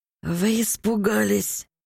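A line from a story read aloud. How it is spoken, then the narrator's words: Hoarse, interrupting. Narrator (Russian): Перебил меня хриплый голос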